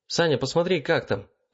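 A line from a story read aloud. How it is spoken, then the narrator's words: Shout. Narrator (Russian): крикнул мне Макс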